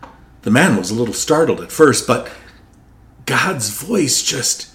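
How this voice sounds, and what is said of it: Usual voice. Nothing is said of it.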